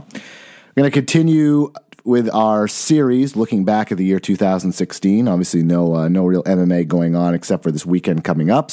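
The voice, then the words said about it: Slightly raspy voice. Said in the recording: “My voice is a little raspy, fighting off a cold”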